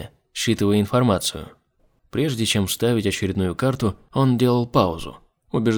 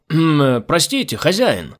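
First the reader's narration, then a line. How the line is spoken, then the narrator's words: Shout. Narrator (Russian): крикнул он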